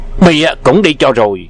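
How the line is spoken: Barked command. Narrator (Vietnamese): Miệng quát

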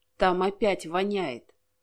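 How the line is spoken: Gloomy. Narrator (Russian): мрачно ответил

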